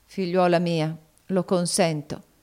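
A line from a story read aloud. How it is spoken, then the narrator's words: Plain. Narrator (Italian): disse St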